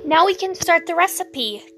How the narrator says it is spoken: Cass exclaimed, his voice an octave higher than usual, nearing a squeal

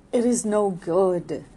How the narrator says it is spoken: cried Arabella

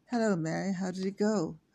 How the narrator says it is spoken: her mother asked in a clear voice

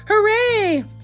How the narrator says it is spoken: down in the hole cried out

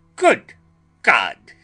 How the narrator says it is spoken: he cried

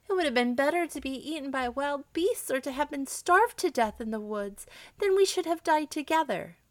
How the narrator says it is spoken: as the tears rolled down her cheeks, she exclaimed

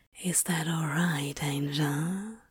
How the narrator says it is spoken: He breathed, just a whisper

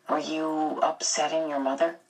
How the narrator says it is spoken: he asked gently

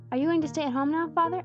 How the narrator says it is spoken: asked Jesse anxiously

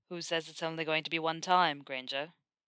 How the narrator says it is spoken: Draco growled

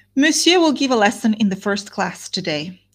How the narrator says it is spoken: said she

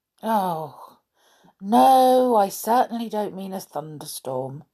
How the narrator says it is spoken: said Joe with a groan

